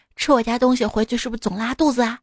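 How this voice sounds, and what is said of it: Quiet secretive whisper. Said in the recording (Chinese): “偷摸的小声说”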